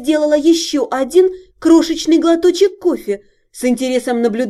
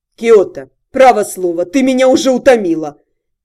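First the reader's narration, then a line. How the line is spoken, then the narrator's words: Irritated snort. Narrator (Russian): Тирус раздраженно хмыкнул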